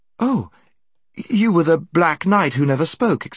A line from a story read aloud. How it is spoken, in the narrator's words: exclaimed